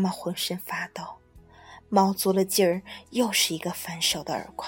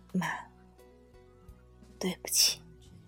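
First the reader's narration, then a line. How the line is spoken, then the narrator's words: Low voice. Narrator (Chinese): 小白低声的说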